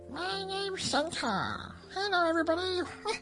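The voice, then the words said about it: Squeaky high-pitched character voice. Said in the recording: “He could have a squeaky voice.”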